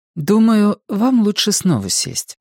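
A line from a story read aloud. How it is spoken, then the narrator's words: Calm. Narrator (Russian): спокойно начала Мэнди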